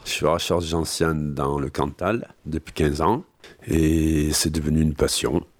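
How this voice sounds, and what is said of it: Regional Cantal French accent. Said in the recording (French): “avec son accent cantalien”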